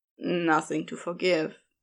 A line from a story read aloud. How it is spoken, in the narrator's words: muttered